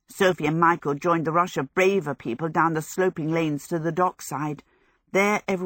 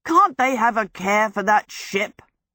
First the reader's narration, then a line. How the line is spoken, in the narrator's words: said indignantly